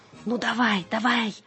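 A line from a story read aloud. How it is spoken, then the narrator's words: Loud muffled hiss. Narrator (Russian): громко прошипел кролик, прикрывая рот лапкой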